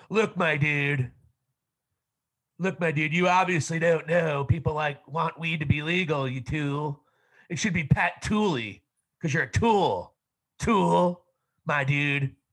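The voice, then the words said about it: Imitates another person's voice. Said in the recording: “that was my John Fetterman ... John Fetterman impersonation”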